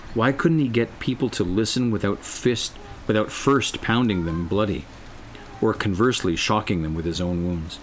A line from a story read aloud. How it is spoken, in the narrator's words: He sighed